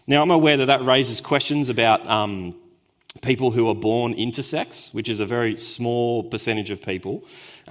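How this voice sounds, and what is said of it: Hoarse, fading voice. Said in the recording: “losing my voice.”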